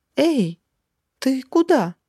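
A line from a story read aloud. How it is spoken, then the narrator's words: Confused shout. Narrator (Russian): растерянно крикнула ему вслед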